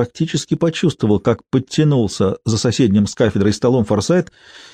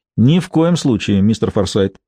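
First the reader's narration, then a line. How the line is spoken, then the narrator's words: Plain. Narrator (Russian): ответила Лего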